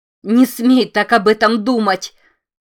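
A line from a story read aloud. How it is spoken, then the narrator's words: Sudden shout. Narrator (Russian): Вдруг закричала она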